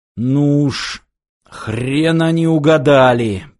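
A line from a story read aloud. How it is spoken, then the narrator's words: Strained growl. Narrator (Russian): прорычал снайпер, с трудом поднимаясь на ноги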